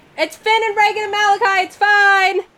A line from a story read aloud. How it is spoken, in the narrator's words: is yelling down the beach